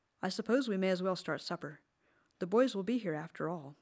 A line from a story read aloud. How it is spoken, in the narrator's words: she said